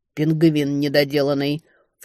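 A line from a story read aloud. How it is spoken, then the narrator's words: Exasperated snort. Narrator (Russian): фыркнула Летиция, очевидно, отчаявшись что-то понять из объяснений падчерицы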